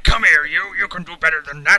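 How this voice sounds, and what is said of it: Gruff lumberjack-like character voice. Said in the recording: “he kind of speaks like a lumberjack or something ... That's a very good impression, actually.”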